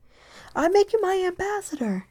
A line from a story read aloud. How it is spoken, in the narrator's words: the king called out hastily